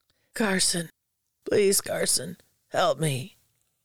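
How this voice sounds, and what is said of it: Pleading character voice. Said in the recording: “Uncle Ted pleaded in his own voice.”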